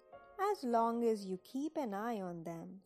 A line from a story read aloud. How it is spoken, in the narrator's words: said Daddy